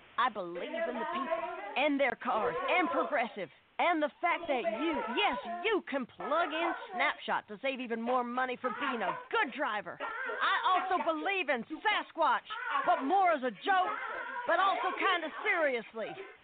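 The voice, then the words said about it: Politician speech voice. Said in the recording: “my impression of a politician”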